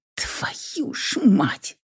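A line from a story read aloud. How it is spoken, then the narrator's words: Whisper. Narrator (Russian): прошептала я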